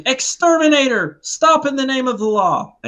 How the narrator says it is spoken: yelling

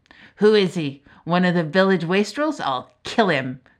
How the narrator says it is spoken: growled her father

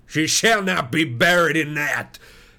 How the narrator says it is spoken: he cried with a fierce snarl

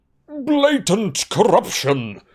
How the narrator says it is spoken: roared the portrait of the corpulent, red-nosed wizard

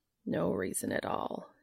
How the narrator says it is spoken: mumbled

